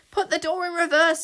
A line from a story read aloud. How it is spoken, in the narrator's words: yelled Zar